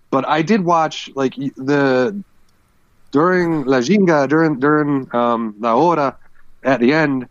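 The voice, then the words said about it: Put-on Brazilian accent, poorly done. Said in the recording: “this is me trying my best Brazilian accent. ... It's the worst butchering.”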